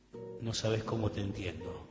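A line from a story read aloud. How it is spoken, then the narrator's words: Murmuring. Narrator (Spanish): murmura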